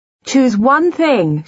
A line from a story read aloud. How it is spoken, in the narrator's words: she shouted after him